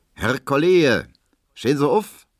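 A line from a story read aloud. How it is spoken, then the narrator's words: Calling out. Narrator (German): ruft Herr Tesch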